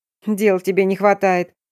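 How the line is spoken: Snorting remark. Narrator (Russian): хмыкнула я

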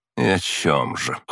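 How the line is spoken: Scoffing snort. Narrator (Russian): хмыкнула она

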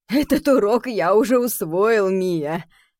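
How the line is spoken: Father laughing. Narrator (Russian): рассмеялся папа

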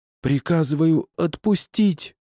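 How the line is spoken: Hoarse rasp. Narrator (Russian): прохрипела она

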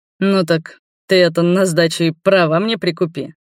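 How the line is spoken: Laughing. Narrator (Russian): засмеялся я

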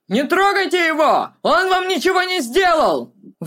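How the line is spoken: Indignant shout. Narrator (Russian): Возмущенно крикнул он

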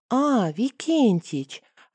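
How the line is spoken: Joyful. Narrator (Russian): радостно проговорил он

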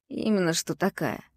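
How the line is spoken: Grumbling. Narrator (Russian): проворчал Фёдор

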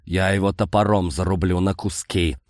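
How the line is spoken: Furious man growling. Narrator (Russian): прорычал разъяренный мужчина

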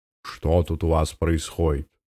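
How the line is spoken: Menacing question. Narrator (Russian): грозно поинтересовался он

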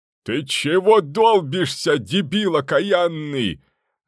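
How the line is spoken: Extremely loud yell. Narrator (Russian): Заорал он с такой громкостью, что куст у забора вздрогнул

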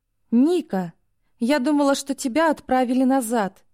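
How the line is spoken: Sobbing girl. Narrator (Russian): разрыдалась девушка

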